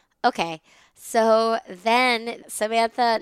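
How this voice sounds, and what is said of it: Usual voice. Nothing is said of it.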